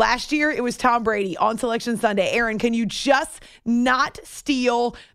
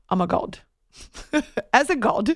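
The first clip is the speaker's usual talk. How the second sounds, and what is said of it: Poor put-on Australian accent. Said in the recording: “My Australian accent stinks”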